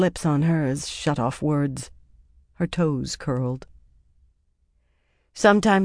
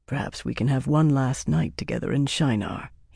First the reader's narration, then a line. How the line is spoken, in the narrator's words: he murmured softly